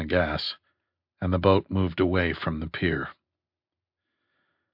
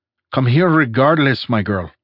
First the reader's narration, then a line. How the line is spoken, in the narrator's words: snapped Santoro